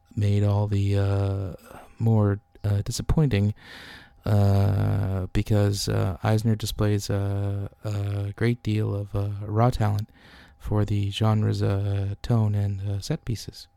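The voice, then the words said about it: NPR radio announcer voice. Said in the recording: “my impression of him is pretty good ... That was NPR. I thought they were there for a second. Like you just turned on the radio.”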